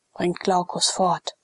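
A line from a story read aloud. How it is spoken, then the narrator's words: Plain. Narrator (German): sagte der Prätor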